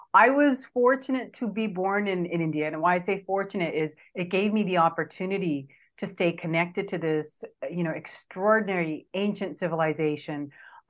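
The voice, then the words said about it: Californian American accent. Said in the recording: “You seriously can't tell from my California accent. ... you've got a California accent.”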